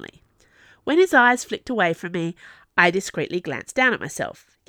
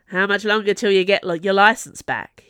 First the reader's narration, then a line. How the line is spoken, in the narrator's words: he asked